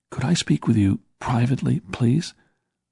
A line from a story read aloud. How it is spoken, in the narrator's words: said in a quiet voice